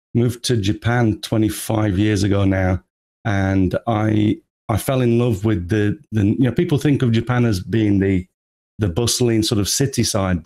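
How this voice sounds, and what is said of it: English accent. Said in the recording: “as you can probably tell from the accent, I'm originally from England.”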